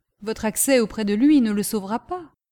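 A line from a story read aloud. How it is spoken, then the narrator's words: Exclaimed, gentleman. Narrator (French): s'écria le gentleman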